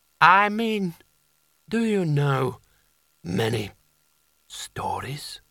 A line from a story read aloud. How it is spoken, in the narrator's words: croaked